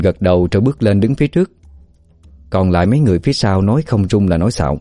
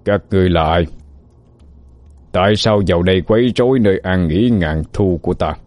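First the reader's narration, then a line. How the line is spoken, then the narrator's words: Deep booming voice, giant. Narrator (Vietnamese): Ông ta cao lớn sừng sững như hộ pháp, cất giọng ồm ồm như sấm rền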